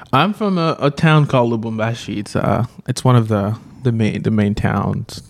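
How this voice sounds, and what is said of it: Congolese accent. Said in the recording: “If you haven't guessed from from his sweet accent, ... he's not from the from America ... is from the Congo.”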